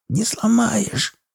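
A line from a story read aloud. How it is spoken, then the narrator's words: Hoarse rasp. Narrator (Russian): прохрипел Урюк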